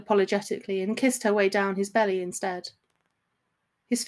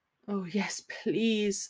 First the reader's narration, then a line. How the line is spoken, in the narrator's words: moaned